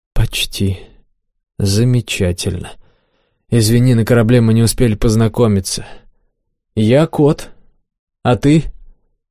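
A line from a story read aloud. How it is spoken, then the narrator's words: Forced calm. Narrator (Russian): Стараясь говорить спокойным тоном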